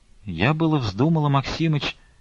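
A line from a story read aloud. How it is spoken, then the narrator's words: Timid, hesitant. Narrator (Russian): робко нерешительно проговорила Аксинья Захаровна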